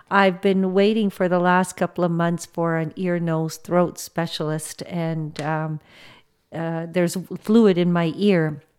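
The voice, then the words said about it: Voice a little off, coughing. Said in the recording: “my voice is kind of a little off and I'm coughing sometimes”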